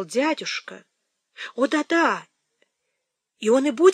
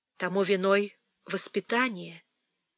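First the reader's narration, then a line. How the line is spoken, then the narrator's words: Soft. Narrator (Russian): мягко сказала Фанни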